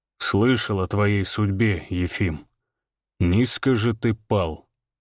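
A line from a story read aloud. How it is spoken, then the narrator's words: Calm. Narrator (Russian): сказал Иван спокойно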